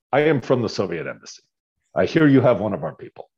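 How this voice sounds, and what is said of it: Put-on Russian accent. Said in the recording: “Russian accent”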